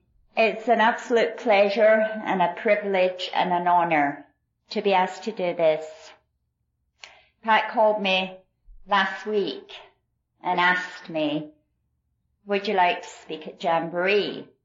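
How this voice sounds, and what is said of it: East Texas accent. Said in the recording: “This is an East Texas accent.”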